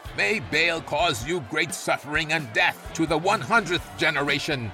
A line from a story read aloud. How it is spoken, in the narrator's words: Matan shouted